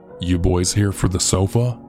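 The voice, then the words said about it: Gravelly, throaty man's voice. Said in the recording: “in a gravelly voice. It sounded like he needed to cough, but couldn't get it out.”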